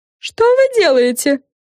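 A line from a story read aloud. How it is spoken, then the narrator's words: Frightened question. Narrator (Russian): испуганно спросила Френ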